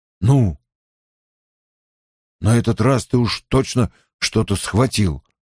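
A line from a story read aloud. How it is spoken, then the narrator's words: Hoarse remark. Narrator (Russian): хрипло заметил Перин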